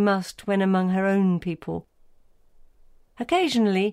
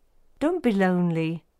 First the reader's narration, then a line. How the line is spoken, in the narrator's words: Suddenly, kindly, he said